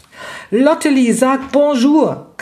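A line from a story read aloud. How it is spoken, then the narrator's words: Shrieked. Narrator (German): kreischte Raffaela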